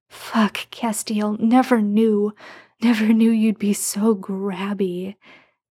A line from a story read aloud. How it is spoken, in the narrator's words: Sam moans